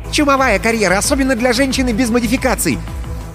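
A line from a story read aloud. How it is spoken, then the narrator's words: Loud rapid chatter. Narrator (Russian): Алина продолжала громко тараторить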